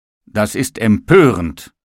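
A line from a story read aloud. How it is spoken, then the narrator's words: Called out. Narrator (German): rief der Tisch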